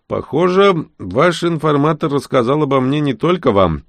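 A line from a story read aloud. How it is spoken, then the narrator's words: Snide smirk. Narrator (Russian): я хмыкнул и ехидно продолжил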